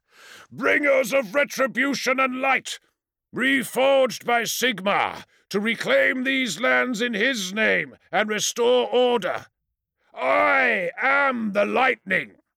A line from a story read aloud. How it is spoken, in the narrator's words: The Hammerhands roared in answer